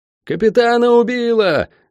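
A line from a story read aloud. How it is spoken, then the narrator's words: Shout. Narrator (Russian): закричал кто-то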